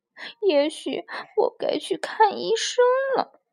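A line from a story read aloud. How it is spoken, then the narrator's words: Crying. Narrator (Chinese): 他哭着说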